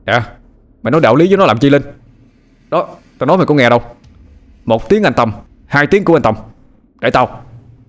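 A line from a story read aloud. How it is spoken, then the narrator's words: Screaming. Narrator (Vietnamese): Tâm gào lên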